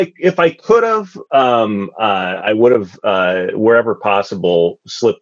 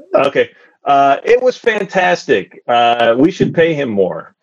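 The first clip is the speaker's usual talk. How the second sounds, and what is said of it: Impression of another man's voice. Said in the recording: “my Zach impression”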